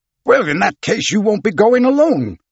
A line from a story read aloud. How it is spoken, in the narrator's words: exclaimed the captain, overcome with emotion in spite of himself